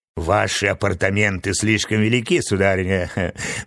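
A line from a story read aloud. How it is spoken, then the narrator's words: Mocking woman. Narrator (Russian): насмешливо заметила красавица Стелла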